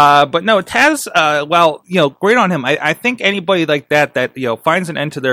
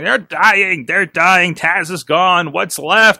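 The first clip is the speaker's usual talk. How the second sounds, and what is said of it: Weird cartoon henchman voice. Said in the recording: “that was a really weird voice. ... I think that was the henchman from Venture Brothers”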